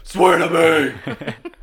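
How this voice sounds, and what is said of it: Batman character voice impression. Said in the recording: “my Christian Bale Batman impression ... That's my impression ... So that's my Batman impression.”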